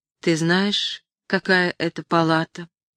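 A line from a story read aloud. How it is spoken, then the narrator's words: Muffled question. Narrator (Russian): Она спросила глухо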